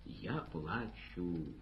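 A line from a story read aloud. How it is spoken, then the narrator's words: Plain. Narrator (Russian): ответил Рахим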